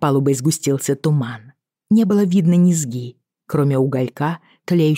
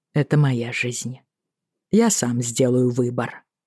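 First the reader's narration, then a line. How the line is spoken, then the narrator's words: Calm, even voice. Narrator (Russian): сказал он, удивившись, насколько спокойно и ровно звучит его голос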